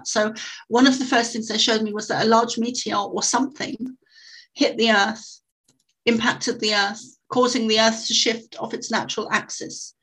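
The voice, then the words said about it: Non-American accent. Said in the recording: “excuse my accent, because a lot of Americans think I'm saying access when I'm saying axis ... My accent, it does sound, the two words sound almost like the same thing.”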